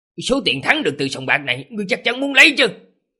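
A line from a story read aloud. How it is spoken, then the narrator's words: Stunned, angry. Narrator (Vietnamese): Tề Tứ Gia bị những lời này của hắn làm cho sững sờ, tức đến suýt bật cười, tức giận mà nói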